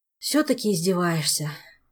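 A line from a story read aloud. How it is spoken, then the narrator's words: Sighing. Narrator (Russian): вздохнул Жак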